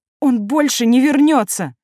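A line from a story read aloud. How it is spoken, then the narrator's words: Sobbing. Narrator (Russian): всхлипнула импатка и разрыдалась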